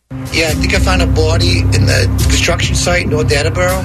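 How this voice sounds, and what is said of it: Put-on Boston accent, heavy breathing. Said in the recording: “It's bringing a guy from L.A. to do a Boston accent. ... they're showing you with his deep breathing”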